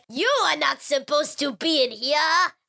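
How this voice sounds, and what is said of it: Bad put-on French accent. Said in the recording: “I'm not just doing a really bad French accent. ... That was a really bad ... French accent.”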